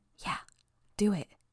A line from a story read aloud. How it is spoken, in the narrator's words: I barely heard her add